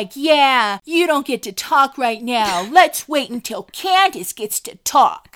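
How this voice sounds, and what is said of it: Imitates another person's voice. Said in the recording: “That's my Andy impression for this reunion.”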